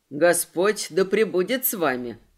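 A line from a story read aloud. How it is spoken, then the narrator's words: Plain. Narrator (Russian): ответил Фома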